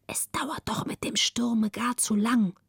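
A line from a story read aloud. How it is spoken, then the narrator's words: Relieved whisper. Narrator (German): atmete frei auf, legte sich auf die andere Seite und flüsterte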